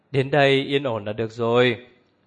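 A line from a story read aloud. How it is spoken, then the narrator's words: Smiling, relaxed. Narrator (Vietnamese): Như Ca mỉm cười nói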